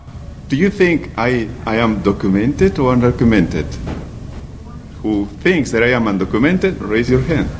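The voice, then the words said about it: Non-native English accent. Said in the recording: “you know that I am an immigrant, right? That's no doubt about it because the accent”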